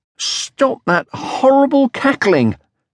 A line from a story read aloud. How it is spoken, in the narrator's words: shouted Moomin Troll, when he saw that she was smaller than he